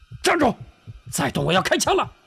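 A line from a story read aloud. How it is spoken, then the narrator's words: Shout. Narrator (Chinese): 车夫喊道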